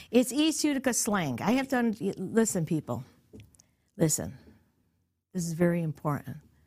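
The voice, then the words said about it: New York accent. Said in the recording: “People think I have a New York accent... You got a New York accent”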